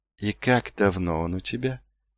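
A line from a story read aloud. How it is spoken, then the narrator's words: Gentle question. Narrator (Russian): мягко спросил он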